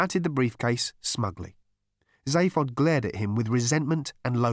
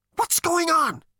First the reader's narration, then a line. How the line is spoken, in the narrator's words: spat Zaphod